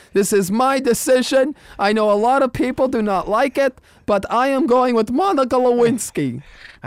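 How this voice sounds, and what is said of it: Imitated accent. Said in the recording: “I love the accent.”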